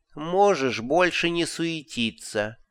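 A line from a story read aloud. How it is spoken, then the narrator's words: Gloomy interruption. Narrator (Russian): мрачно перебил его Мазукта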